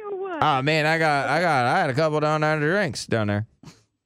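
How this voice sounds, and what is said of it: Boomhauer-style cartoon character voice. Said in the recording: “doing this voice... Now you're doing a little Boomhauer.”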